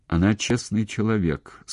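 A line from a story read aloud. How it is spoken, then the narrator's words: Calm. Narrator (Russian): сказал Гнетов все еще спокойно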